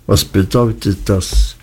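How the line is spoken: Flat toneless unsettling voice. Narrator (German): Er sprach mit so tonloser Stimme, dass es mich fast erschreckte

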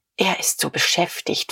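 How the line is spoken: Pale whisper. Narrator (German): flüsterte Frau von Vulkow ein wenig bleicher

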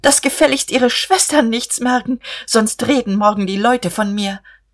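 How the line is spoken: Calling after someone. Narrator (German): Guste rief ihm nach

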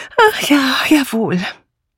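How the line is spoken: Sighed. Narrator (German): Dora Banner seufzte

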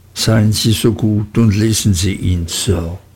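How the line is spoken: Quietly adding. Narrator (German): setzte mit leiser Stimme hinzu

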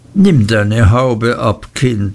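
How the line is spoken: Plain. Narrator (German): sagte Miss Betsy

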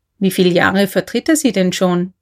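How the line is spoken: Plain question. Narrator (German): fragte K

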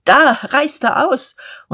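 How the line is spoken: Calling out. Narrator (German): Gottlieb Hornung rief

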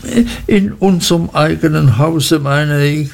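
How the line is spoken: Frightened stammer. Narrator (German): stotterte meine Mutter ganz erschrocken

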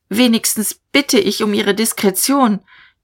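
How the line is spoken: Calling after someone. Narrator (German): Dieterich rief ihm nach

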